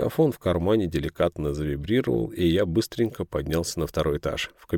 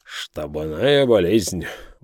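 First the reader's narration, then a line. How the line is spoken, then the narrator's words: Dejected sigh. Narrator (Russian): вздохнул он с унынием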